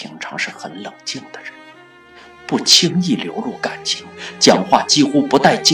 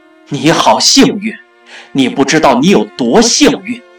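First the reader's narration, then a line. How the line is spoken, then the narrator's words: Shouting into phone. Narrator (Chinese): 他朝着电话大喊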